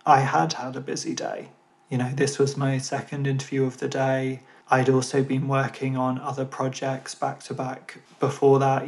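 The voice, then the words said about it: Tired, end-of-day voice. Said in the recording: “You may be able to tell. You may be able to tell in my voice ... I've got a bit of a headache coming on ... this is my last thing of the day”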